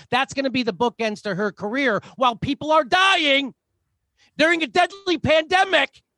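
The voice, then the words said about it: Raised, loud angry voice. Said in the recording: “I'm supposed to be embarrassed that I'm raising my voice.”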